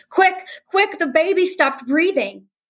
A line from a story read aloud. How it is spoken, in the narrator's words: her mom rushes in shouting